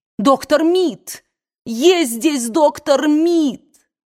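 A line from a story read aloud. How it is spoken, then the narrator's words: Shouting at full voice. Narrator (Russian): закричала, что было мочи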